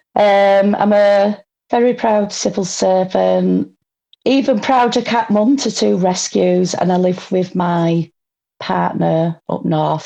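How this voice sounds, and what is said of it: Northern English accent. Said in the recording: “as you can probably tell by my accent, I'm a northerner.”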